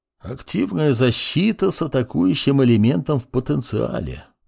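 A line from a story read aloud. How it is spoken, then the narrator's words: Mumbling while chewing, smiling. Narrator (Russian): пробормотал профессор, дожевывая шляпку гриба с легкой улыбкой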